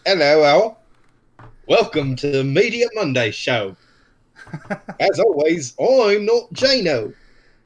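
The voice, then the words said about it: Put-on British accent. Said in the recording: “We can be a bit more British.”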